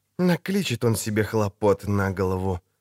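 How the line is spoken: Hissed. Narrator (Russian): прошипела Йеннифер

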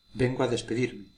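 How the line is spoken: Plain. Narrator (Spanish): dijo Malespina

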